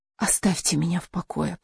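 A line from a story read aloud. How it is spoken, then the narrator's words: Whispered. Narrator (Russian): прошептала Каролина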